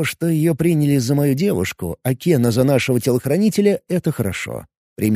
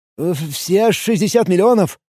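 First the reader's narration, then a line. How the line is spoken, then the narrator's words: Forced out, strained. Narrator (Russian): выдавил из себя мужчина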